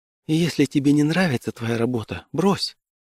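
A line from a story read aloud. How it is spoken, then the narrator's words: Plain. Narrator (Russian): сказала моя девушка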